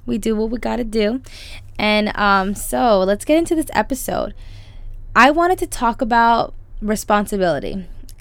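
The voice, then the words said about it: Lower, slightly tired voice. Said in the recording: “I might be a little bit on the lower side of my voice just because I do have a blister in my mouth right now that's kind of making it hard to talk ... I'm just a little bit tired”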